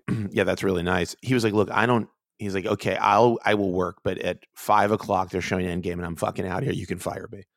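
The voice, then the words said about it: Hoarse, creaky voice, losing it. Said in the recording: “I'm like having some sort of reverse vocal fry. What is that? I'm down talk. I'm like losing my voice, maybe?”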